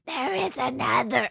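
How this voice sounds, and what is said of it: Yoda character voice. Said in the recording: “do a Yoda impression”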